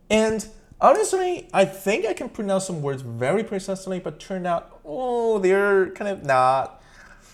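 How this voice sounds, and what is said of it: Slight Asian accent. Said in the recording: “I can still tell some like an Asian accent from that”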